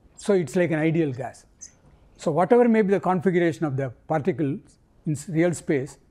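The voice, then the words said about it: Accented English. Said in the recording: “Sorry for the accent.”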